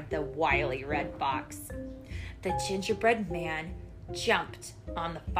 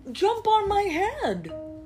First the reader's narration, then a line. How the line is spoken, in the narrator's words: cried the fox